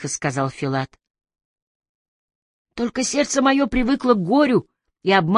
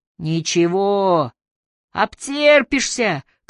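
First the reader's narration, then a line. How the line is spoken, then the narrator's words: Group of farmers shouting. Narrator (Russian): крикнули колхозники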